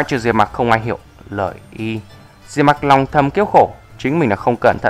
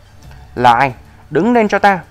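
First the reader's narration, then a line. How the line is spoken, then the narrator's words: Angry. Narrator (Vietnamese): Tên tu sĩ kim đan đại viên mãn tức giận nói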